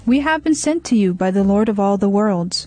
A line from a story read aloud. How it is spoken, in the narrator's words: he said in a clear voice